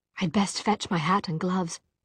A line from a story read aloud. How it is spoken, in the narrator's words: Tessa whispered to Jem